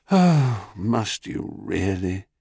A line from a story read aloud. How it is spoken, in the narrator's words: said Zeus with a sigh